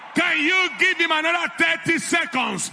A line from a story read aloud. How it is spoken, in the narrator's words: Victory shout